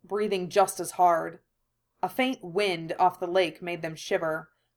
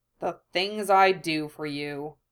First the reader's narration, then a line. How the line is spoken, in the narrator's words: Hiei grumbled